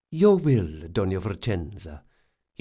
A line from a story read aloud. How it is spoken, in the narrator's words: he said smoothly